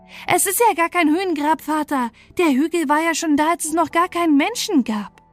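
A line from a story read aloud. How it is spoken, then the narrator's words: Startled impulsive cry. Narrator (German): Ich bekam einen heftigen Schreck und ohne mich zu besinnen, was ich tat, fuhr ich hinter dem Ofen hervor und rief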